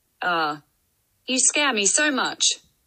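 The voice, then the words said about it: Sarcastic artificial robot-like voice. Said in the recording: “my artificial voice ... That was sarcasm”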